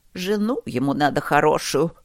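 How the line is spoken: Grumbling. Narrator (Russian): ворчала миссис Катерина

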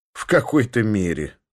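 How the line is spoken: Laughing. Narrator (Russian): Саша засмеялся

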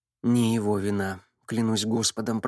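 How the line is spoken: Muttering. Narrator (Russian): пробормотал он

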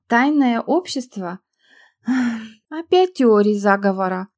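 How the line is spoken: Sighing. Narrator (Russian): Ольга вздохнула

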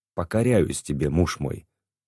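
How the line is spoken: Quiet voice. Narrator (Russian): тихим голосом произнесла Татьяна

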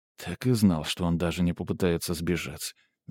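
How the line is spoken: Sigh. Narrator (Russian): вздохнул граф

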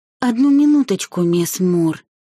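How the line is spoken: Through gritted teeth. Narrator (Russian): процедила та сквозь зубы

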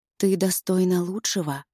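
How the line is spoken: Soft whisper. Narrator (Russian): шепчет она мягко

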